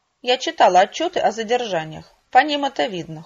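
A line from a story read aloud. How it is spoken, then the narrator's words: Cold reply. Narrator (Russian): холодно ответила я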